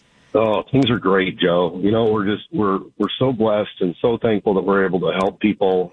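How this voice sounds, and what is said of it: Slightly raspy voice. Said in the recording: “my voice is still a little bit raspy”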